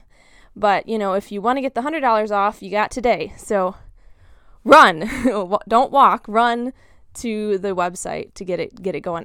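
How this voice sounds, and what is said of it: Slightly out of breath. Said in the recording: “I don't know if you guys can tell, but I'm kind of out of breath.”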